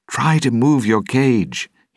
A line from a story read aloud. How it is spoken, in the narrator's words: he shouted